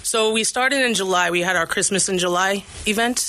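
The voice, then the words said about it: Long Island New York accent. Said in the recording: “Wait till you hear the accent ... She's from my neck of the woods, Long Island, New York”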